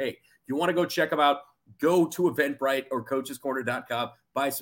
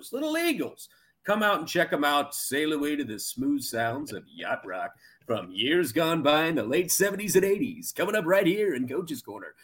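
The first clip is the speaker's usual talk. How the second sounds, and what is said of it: Fake radio announcer voice. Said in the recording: “did fake radio voice there”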